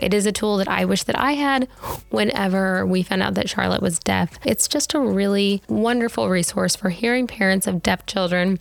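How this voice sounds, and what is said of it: Slightly raspy voice. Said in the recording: “my voice is a little raspy. Everybody in my house has strep throat right now”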